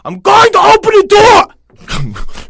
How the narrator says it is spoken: the mother suddenly shouted

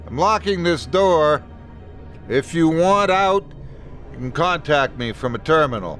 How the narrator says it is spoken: called out

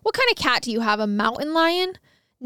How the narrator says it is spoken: Sheehan scoffed and asked

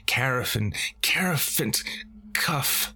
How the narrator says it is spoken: she cried

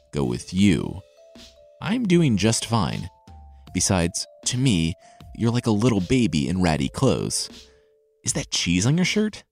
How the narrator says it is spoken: The tailor chuckled

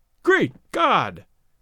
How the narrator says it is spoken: exclaim

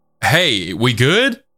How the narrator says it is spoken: Sam then said loudly

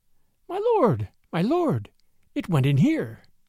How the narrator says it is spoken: Tabaki, behind him, was squeaking

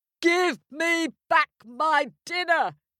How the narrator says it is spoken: he roared

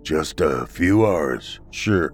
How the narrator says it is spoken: the old man replied in a monotone voice

